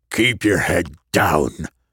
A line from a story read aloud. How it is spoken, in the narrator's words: he growled